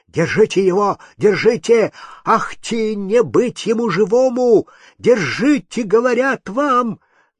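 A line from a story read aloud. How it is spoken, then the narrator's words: Frightened shout. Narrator (Russian): Приказчик побледнел и закричал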